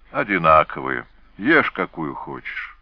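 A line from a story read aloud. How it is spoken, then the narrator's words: Sighing, spoken. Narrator (Russian): вздохнув, сказала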